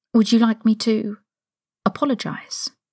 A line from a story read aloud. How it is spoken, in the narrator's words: Harry asked